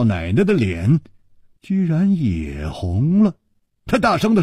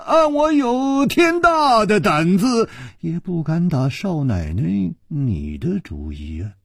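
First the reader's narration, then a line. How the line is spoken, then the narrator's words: Sighing. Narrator (Chinese): 楚留香叹了一口气说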